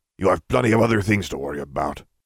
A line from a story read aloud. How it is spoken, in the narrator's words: Salazar muttered